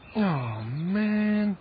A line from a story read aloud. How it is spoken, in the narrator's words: groaned Jason